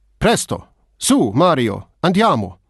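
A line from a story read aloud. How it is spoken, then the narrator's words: Rough flat emotionless voice. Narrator (German): Rau, unschön und völlig emotionslos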